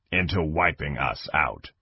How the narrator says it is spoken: Kang said grimly

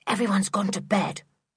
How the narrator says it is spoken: whispered Sooty

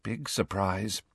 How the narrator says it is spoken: said Hermione under her breath

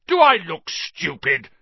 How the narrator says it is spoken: snarled Uncle Vernon

